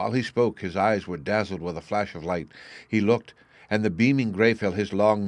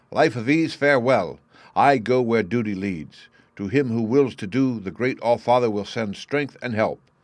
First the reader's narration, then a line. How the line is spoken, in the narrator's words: cried